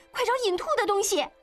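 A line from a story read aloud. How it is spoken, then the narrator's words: Urgent shout. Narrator (Chinese): 依依又冲喜凤喊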